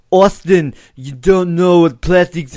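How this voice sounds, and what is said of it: Exaggerated strange imitated accent. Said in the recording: “Schwarzenegger on crack. I don't know what that accent was. Hashtag better than Anne Heche's accent.”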